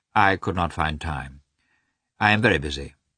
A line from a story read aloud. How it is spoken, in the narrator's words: Karenin answered dryly